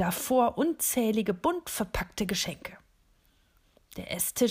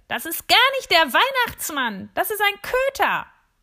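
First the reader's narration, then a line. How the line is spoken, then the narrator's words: Shrill device screech. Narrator (German): kreischt eines der Geräte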